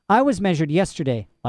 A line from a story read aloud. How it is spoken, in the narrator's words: Lyra said